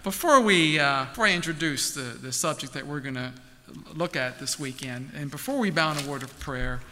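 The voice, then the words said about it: Baltimore American accent. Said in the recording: “my Baltimore accent,”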